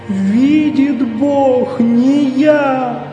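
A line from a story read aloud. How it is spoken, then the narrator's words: Sobbing repetition. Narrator (Russian): повторял, всхлипывая, бедняк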